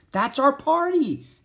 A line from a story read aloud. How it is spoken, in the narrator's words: exclaimed Annie